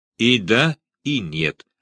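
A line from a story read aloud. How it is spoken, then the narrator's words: Plain. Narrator (Russian): ответил он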